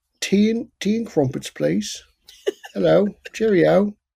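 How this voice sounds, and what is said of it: Put-on British accent. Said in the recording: “do you have also, a British accent?”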